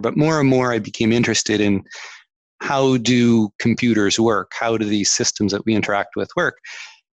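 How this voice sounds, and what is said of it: Canadian accent. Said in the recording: “accent, Canadian accent”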